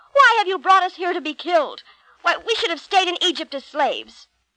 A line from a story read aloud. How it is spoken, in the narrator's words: Bitterly they cried out against Moses